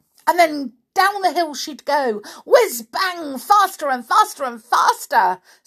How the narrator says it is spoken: said the clockwork mouse excitedly

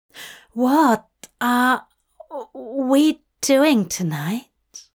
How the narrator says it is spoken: Aziraphale asked nervously

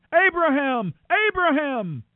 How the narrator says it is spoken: the angel of the Lord shouted to him from heaven

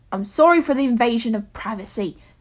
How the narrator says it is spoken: she snapped

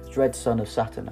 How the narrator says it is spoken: answered Juno

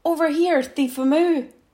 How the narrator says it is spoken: roars

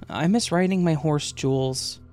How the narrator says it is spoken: I would sadly say

